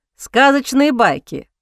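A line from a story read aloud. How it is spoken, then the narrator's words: Prince snorting reply. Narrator (Russian): фыркнул принц в ответ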